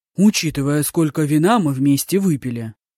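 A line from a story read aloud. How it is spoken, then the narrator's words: Grumbling. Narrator (Russian): проворчал Мажун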